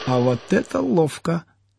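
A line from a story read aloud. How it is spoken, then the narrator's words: Excited whisper. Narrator (Russian): азартно прошептал сосед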